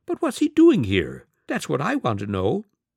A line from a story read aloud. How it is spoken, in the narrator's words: the fat man squeaked